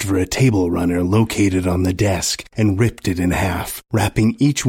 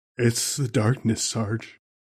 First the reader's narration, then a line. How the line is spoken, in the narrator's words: mumbled from his dreamlike state